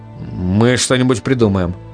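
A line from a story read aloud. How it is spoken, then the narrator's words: Bewildered. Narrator (Russian): сказал он растерянно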